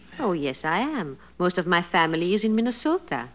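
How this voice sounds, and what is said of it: Foreign European accent, broken English. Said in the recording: “Your accent still intrigues me. I can tell you're not a native. ... you didn't pick up that accent in Minnesota. ... broken English”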